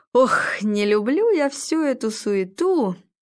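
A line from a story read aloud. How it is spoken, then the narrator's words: Cheerful. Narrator (Russian): радостно сказал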